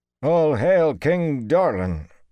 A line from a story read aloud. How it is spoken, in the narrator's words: Wireman intoned, sounding half-strangled